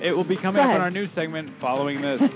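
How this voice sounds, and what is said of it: News anchor voice. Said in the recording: “Good news voice”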